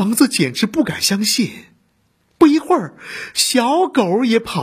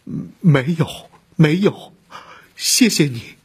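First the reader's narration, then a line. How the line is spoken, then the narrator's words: Choked-up sobbing. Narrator (Chinese): 空房子哽咽了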